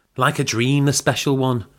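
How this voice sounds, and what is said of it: Exaggerated, inauthentic Manchester accent. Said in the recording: “What accent is that? ... Manchester. It's where I'm from, actually. ... It's amazing when someone does an accent from the place they're from that's so inauthentic. ... Honestly, I thought it was from Liverpool.”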